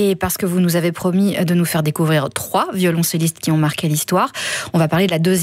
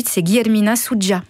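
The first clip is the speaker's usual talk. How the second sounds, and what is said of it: Name said in Portuguese accent. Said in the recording (French): “vous avez un bel accent portugais”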